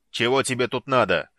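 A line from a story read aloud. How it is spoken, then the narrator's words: Barked. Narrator (Russian): рявкнул Базак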